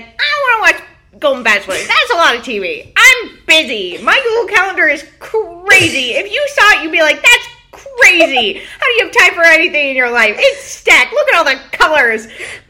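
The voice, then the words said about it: Impression of a friend. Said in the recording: “really good impression”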